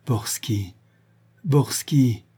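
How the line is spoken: Stammered. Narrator (French): bégaya Véronique

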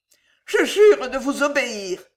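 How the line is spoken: Sobbing. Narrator (French): sanglota Myrtis

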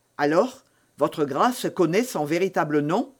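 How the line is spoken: Curt voice. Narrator (French): demanda Felton d'une voix brève

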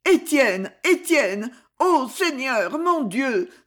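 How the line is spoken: Exclaiming. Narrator (French): s'écria Madame Cordier

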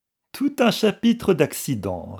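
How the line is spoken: Sneering. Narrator (French): ricana le capitaine

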